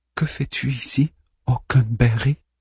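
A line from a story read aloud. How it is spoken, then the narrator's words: Stammering voice. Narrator (French): réponds d'une voix balbutiante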